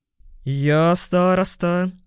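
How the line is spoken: Deep bass voice. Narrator (Russian): пробасил он

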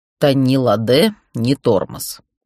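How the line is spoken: Snort, then serious. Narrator (Russian): Гроу хмыкнул, но тут же ответил вполне серьезно

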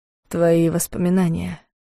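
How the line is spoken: Quiet, soft. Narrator (Russian): сказал он тихо

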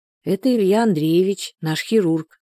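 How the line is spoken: Calm explanation. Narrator (Russian): спокойно пояснила подруге Соня

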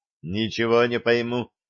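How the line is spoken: Puzzled mutter. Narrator (Russian): озадаченно пробормотал он

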